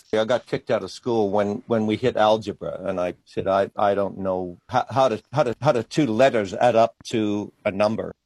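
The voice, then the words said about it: Mixed Australian and foreign accent. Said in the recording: “It's a bit of a mixed up accent ... he is an Australian artist, but he spent many years in other parts of the world”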